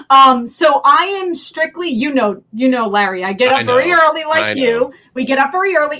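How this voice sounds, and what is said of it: New Jersey accent. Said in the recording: “my New Jersey accent is going to come through”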